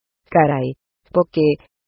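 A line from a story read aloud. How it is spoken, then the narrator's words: Exclaiming. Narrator (Spanish): exclamó Lloyd Rion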